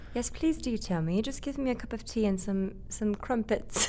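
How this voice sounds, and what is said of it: Put-on British accent. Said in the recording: “I like speaking in a British accent, but I don't think I'm very good. ... how you feel about that accent right there.”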